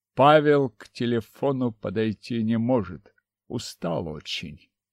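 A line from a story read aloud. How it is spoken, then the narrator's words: Calm, suppressing anger. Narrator (Russian): Старательно подавив нахлынувшую злость, спокойно сказал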